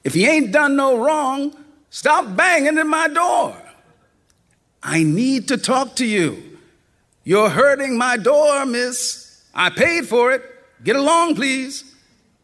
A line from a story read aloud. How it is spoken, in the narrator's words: Shays wouldn't open the door, but she hollered from inside